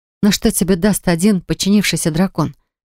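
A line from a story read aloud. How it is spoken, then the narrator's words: Trembling question. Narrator (Russian): спросил я дрожащим голосом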